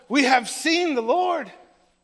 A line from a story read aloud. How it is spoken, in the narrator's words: they excitedly tell him